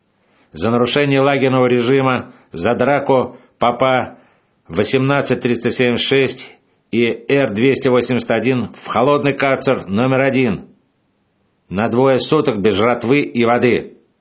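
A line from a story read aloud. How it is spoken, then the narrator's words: Shouted, boss. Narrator (Russian): крикнул начальник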